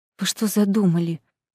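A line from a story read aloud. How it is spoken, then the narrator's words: Frightened whisper. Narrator (Russian): побелевшими губами прошептала она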